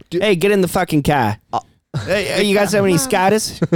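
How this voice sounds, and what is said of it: Put-on Maine accent. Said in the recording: “they all talk like this ... They got a terrible accent.”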